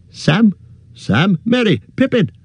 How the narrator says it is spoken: Fear took him, shouting wildly

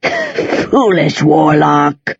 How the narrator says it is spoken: Agrimon wheezed

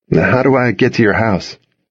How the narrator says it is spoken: asked

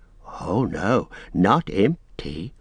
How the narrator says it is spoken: whispered Gollum

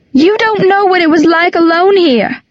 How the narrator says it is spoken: she'd cried

